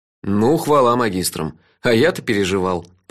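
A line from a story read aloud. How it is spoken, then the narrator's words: Grumble. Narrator (Russian): проворчал я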